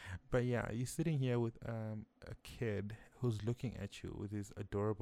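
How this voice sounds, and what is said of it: Usual voice. Nothing is said of it.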